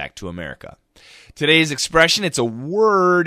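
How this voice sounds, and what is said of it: Usual voice. Nothing is said of it.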